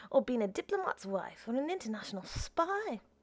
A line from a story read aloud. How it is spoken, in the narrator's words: tell gaily